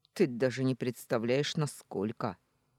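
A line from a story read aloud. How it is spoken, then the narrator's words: Rough, near growl. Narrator (Russian): Грубо выдал он, почти с рычанием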